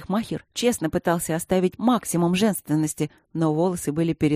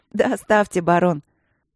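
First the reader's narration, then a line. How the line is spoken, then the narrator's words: Laughing. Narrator (Russian): Я засмеялась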